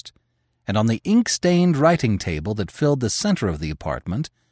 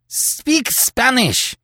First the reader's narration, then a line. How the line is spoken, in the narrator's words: cried Terry passionately